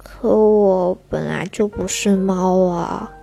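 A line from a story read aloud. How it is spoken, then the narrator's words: Lowered, softer voice. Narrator (Chinese): 小狮子降低声音说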